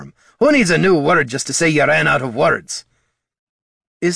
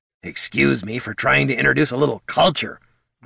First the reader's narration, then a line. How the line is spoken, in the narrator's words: grumbled Bert, giving Gorm a resentful glare